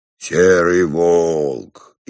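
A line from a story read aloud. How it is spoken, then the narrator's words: Playful bass voice. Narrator (Russian): игривым басом сказал Иван Дмитриевич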